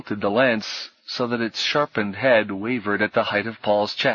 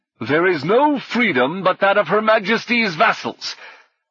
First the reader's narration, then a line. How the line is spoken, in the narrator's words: the knight boomed